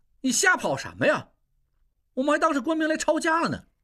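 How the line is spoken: Loud scolding. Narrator (Chinese): 应英也大声呵斥

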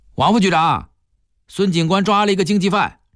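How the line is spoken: Calling out. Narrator (Chinese): 他冲里面的一间办公室喊道

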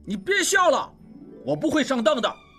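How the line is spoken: Shouting. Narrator (Chinese): 拉斯普汀叫道

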